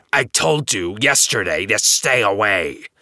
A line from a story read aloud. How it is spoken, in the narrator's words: snarls